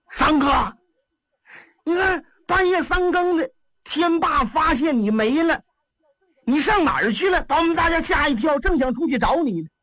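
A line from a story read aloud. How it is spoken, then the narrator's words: Shouting. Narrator (Chinese): 贾明第一个喊上了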